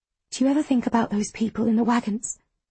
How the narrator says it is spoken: I whisper

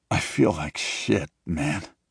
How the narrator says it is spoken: he groans, trying to smile

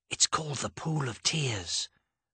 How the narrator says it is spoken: Dodge answered, also whispering

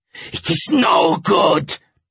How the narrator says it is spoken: he growled

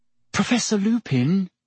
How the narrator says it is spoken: said Hermione timidly

